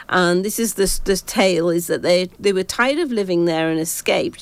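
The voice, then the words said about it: English (British) accent. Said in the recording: “my stupid Pom accent is doing this really badly”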